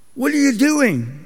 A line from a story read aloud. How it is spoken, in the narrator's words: cried out